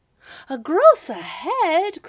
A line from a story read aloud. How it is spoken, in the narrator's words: cried the citizens